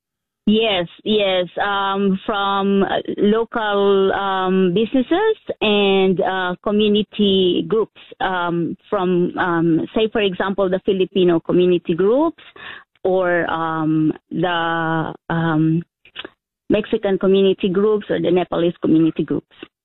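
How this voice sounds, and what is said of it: Filipino accent. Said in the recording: “hearing your accent, you are Filipino heritage? ... Yes, I am.”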